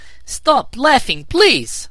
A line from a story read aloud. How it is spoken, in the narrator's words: cried Zixi